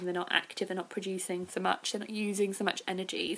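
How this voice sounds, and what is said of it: Slightly dry, strained voice. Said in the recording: “my voice is going a bit, my throat's going a bit dry today”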